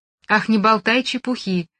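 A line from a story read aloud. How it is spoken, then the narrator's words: Cheerful laughter. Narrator (Russian): весело засмеялась она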